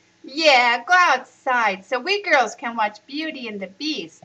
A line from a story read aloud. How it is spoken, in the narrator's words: she shouted